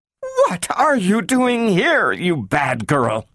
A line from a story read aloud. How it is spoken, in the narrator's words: cried Mrs